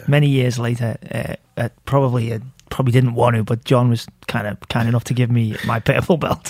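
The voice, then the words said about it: Liverpool English accent. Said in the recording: “I like that accent too ... Liverpool, in England ... I love the accent”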